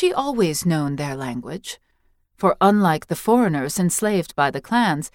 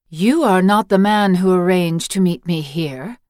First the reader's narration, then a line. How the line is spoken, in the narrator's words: said the woman, her voice so resonant and clear that it seemed the wind spoke at her command